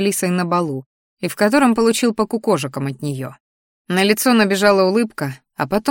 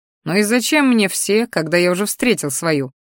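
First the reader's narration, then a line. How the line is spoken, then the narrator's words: Snorting. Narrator (Russian): хмыкнул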